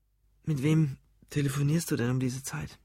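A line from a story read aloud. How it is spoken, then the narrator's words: Quiet question. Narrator (German): fragte Ruth leise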